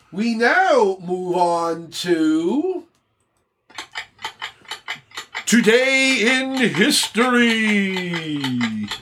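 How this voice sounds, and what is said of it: Spooky announcer voice. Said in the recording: “The spooky voice don't match it.”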